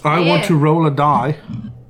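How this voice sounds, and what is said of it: Put-on funny English accent. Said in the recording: “That funny English accent you're just doing there”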